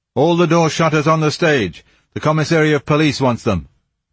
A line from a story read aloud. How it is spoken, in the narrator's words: Someone above them shouted